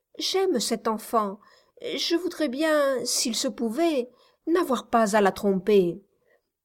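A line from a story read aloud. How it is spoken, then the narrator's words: Young woman stammering. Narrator (French): balbutia la jeune femme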